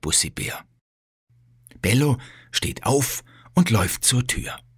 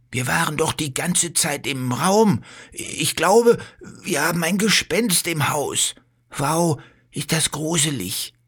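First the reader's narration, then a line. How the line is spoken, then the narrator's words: Fearful. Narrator (German): sagt Bello und schaut sich ängstlich um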